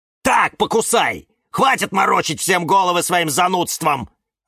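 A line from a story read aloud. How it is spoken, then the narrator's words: Yelled. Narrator (Russian): завопил кактус Кирилл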